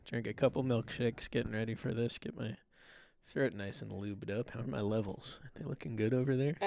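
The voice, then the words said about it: Put-on sultry, quiet voice. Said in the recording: “The sexy episode... The sultry episode... I don't know why I'm doing a voice, but I can't stop”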